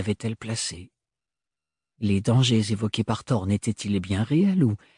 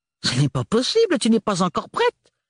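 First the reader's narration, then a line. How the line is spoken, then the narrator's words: Exclaiming. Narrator (French): s'exclama la tante Roseline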